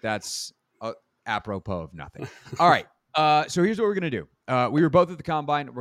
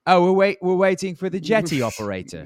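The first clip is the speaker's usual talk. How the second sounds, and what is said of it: Put-on accent. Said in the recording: “There's that accent again.”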